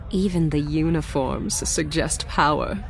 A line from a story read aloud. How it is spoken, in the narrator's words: she murmured